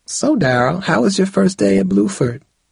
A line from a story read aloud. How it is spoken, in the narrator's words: she asked warmly